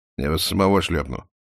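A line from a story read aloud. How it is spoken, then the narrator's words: Embarrassed grumble. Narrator (Russian): буркнул Романов, но был смущен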